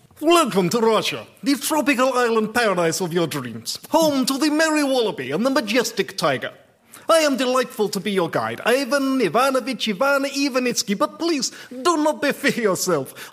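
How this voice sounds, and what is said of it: Exaggerated put-on Russian accent. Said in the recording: “I will not be doing the whole lecture in this ridiculous accent.”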